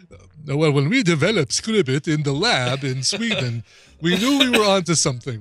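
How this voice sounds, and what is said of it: Put-on accent. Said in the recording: “I like that accent, by the way. You should pull that one out.”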